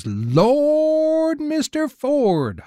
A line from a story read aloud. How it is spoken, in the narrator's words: hollers Mills